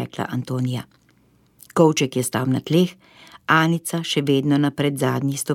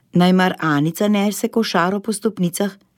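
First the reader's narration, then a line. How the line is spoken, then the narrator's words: Cheerful. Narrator (Slovenian): je rekel veselo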